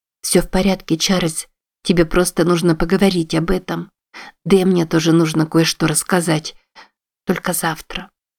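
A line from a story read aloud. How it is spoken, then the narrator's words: Tender murmur. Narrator (Russian): пробормотала она, прижимаясь к нему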